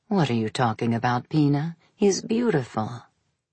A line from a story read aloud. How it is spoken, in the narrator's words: Maria murmured, like a soothing formula